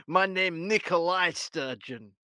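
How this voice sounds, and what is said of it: Put-on Russian accent. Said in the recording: “Why do you sound Russian, ... Because I'm really Russian.”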